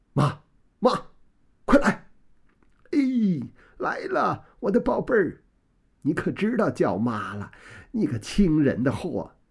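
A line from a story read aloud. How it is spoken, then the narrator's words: Crying and laughing mother. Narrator (Chinese): 王夫人又是哭又是笑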